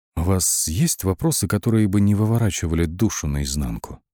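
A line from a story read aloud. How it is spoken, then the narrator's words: Quiet question. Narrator (Russian): Тихо спросил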